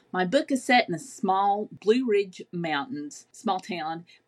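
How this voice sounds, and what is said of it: Southern Appalachian American accent. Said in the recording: “My accent probably has given that away.”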